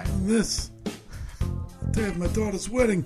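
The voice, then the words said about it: Godfather Don Corleone impression. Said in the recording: “That's my Brando impression... From The Godfather. Don Corleone.”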